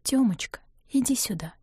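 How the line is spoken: Gentle, careful whisper. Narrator (Russian): позвала Нина уже шёпотом, боясь напугать сына

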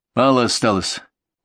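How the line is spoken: Sigh. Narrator (Russian): он вздохнул

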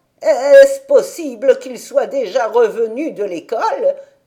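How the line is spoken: Astonished old woman's exclamation. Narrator (French): s'écria la grand-mère tout étonnée

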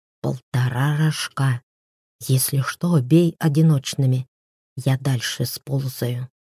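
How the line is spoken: Whisper. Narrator (Russian): апостол шепотом сказал

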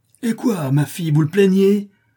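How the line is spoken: Sudden furious yell. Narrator (French): hurle Don Blas avec une subite explosion de colère

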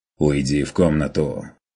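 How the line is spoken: Stern demand. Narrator (Russian): Потребовал строго

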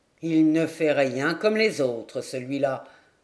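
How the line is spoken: Suspicious growl. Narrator (French): gronda Balanec un pli soupçonneux aux lèvres

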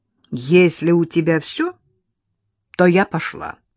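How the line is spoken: Stern. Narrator (Russian): строго сказала Лола

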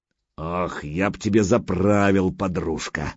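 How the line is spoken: Admiring deep bass. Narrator (Russian): восхищенно пробасил Гучко

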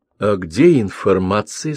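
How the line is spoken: Plain. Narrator (Russian): спросил Константинов

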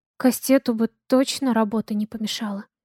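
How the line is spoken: Soft. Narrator (Russian): тихонько говорит Лена

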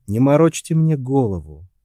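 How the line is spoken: Tired. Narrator (Russian): устало сказал Джон

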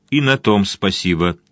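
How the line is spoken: Plain. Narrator (Russian): сказал полковник Вудворд

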